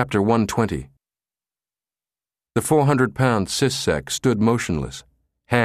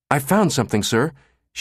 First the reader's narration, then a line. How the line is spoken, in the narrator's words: said excitedly